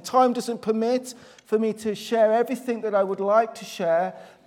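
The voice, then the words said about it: Black Country English accent. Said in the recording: “You can tell that my accent's not Northern Irish. It's obviously I'm from the Black Country, which is sort of an area in the Midlands.”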